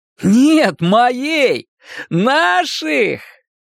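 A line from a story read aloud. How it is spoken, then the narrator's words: Happy laughter. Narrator (Russian): Рой рассмеялся по-настоящему счастливый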